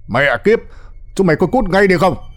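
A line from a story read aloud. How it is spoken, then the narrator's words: Furious yelling. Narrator (Vietnamese): ông Vãn điên tiết, gào lên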